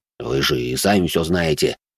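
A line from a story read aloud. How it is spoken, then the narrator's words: Displeased mutter. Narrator (Russian): недовольно буркнул де Журиньи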